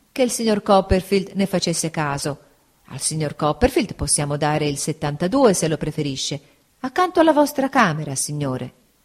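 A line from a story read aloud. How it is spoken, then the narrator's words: Waiter, apologetic tone. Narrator (Italian): rispose il cameriere sempre in tono di scusa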